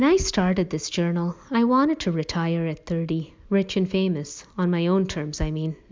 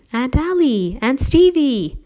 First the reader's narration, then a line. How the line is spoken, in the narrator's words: scream